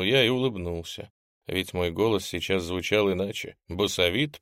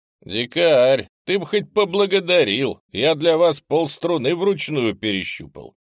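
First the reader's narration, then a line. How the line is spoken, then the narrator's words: Loud proud mockery. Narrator (Russian): Громко, с горделивой насмешкой, произнес Ренг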